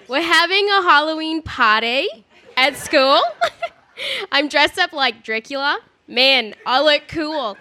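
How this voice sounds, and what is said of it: Put-on Australian accent. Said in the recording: “I'm going to do this in Australian accent to make it a little more interesting.”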